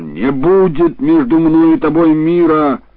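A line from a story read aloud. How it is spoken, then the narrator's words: Exclamation. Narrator (Russian): Фатима воскликнула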